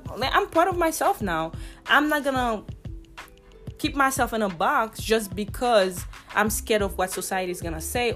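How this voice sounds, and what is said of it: Heavy non-native accent. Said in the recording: “I have a heavy accent ... you tell me that I have a heavy accent”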